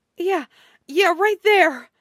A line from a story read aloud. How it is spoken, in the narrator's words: Becky said between gasps